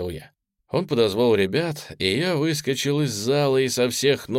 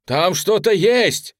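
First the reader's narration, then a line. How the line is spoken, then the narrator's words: Shout close to ear. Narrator (Russian): крикнул кто-то мне прямо в ухо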